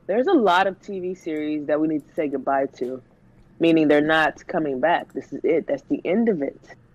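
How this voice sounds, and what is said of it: Sick, under-the-weather voice. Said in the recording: “Excuse my voice today. I'm a bit under the weather”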